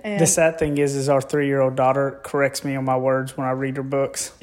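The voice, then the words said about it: Strong, hard-to-understand accent. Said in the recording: “the one with the accent ... The one you can't understand”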